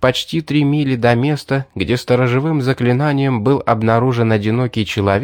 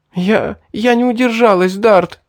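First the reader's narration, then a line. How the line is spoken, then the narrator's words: Sobbing. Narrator (Russian): всхлипнула Селина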